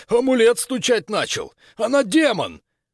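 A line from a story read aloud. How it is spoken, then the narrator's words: Soldier's strained exclamation. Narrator (Russian): Один из солдат надсадно воскликнул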